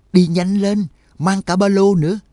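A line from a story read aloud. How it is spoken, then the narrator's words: Desperate loud shout. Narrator (Vietnamese): Trắc Mộc Cường Ba biết là lần này e là không còn hy vọng nữa, lớn tiếng thét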